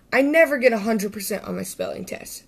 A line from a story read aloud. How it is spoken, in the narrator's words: said Sammy